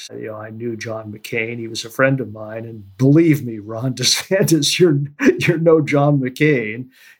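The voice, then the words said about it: Lloyd Bentsen impression. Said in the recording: “my Lloyd Benson imitation”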